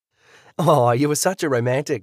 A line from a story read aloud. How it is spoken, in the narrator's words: she laughed